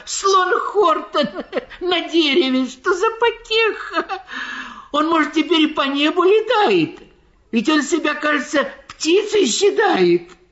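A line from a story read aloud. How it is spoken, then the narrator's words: Animals shouting, breathless with laughter. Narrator (Russian): Все звери лесные, кричали они, задыхаясь от смеха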